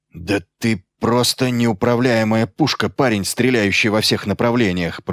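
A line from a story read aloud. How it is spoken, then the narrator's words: Growled. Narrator (Russian): прорычал Иллиан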